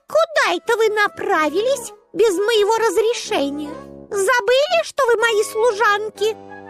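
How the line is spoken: Shout. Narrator (Russian): крикнула Барби

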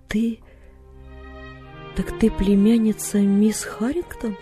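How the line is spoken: Gentle question. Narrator (Russian): ласково спросил он

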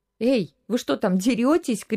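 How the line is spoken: Mother shouting. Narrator (Russian): крикнула мама

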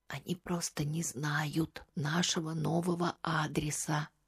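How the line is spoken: Soft whisper. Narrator (Russian): прошептал Алексей тихо, чтобы услышала только она

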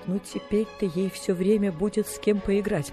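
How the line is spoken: Speaking through tears. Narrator (Russian): проговорила сквозь слезы мисс Полли

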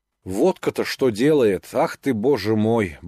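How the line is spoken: Muttering, hungover. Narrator (Russian): бормотал он, встряхивая своею больною головой

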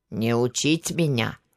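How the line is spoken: Scout hissing. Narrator (Russian): зашипел разведчик

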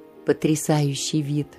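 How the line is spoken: Dreamy sigh. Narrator (Russian): мечтательно вздохнул впечатлительный месье Жильяр

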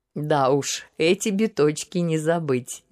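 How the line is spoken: Laughing, unable to hold back. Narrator (Russian): не выдержав, рассмеялся император

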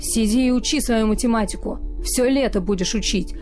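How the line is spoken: Growling. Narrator (Russian): прорычал он

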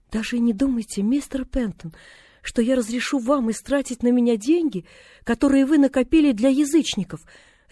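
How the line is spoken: Resolute exclamation. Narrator (Russian): решительно воскликнула она

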